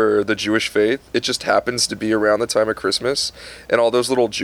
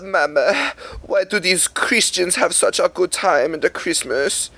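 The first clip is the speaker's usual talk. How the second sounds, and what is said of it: Put-on Jewish accent. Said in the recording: “what accent was that? ... Jewish.”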